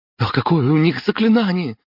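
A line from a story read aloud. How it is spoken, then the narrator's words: Frightened breathless gasp. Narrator (Russian): испуганно выдохнул Дима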